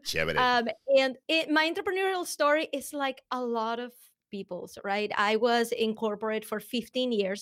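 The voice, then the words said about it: Venezuelan accent. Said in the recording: “where the accent is coming from, it is Venezuelan.”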